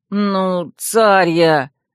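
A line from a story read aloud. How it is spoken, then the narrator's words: Unhappy moan. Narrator (Russian): несчастным тоном простонал принц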